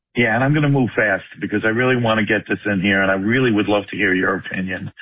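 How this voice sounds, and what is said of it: New York accent. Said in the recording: “I am from New York ... don't ever lose that accent. It's awesome. I'm never going to lose my accent.”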